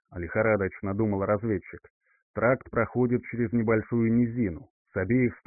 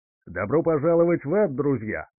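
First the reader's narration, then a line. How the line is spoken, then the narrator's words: Friendly shout. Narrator (Russian): крикнул маг с самым приветливым голосом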